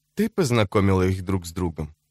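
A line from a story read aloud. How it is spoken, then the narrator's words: Calm question. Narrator (Russian): спросил он спокойным тоном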